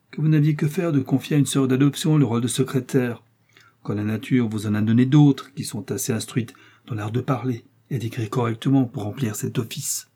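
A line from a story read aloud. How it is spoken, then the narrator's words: Sour, sharp voice. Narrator (French): dit-elle d'une voix aigre comme du vinaigre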